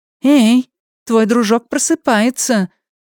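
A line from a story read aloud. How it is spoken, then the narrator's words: Exclaiming. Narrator (Russian): воскликнула Джули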